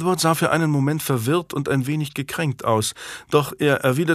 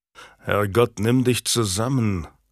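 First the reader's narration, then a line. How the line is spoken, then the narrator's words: Growl. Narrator (German): knurrte Warwick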